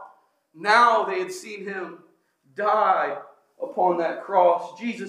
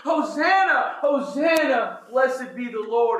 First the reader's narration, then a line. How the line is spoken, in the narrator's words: they were just shouting